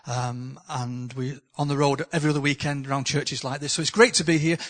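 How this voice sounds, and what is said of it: Northern English accent. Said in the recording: “my accent from the north”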